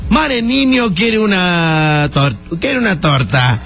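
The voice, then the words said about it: Put-on Yucatecan Spanish accent. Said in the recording (Spanish): “¿cómo hablan los yucatecos? ... se te empieza a pegar el acento”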